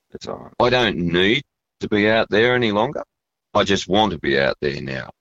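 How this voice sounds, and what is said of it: Emotional, choked-up voice. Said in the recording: “get a bit emotional.”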